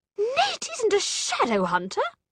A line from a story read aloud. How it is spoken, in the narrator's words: she cried